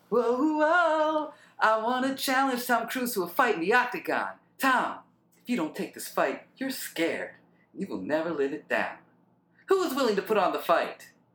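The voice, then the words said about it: Falsetto imitation of another person's voice. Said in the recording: “That actually is way more Justin Bieber like... I'm trying to go like falsetto”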